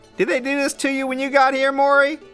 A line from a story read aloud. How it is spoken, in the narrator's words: shouts Babe Buchanan, ganging up on Morey